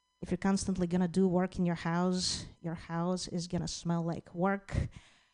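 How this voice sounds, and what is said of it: Noticeable foreign accent. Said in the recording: “I love your accent.”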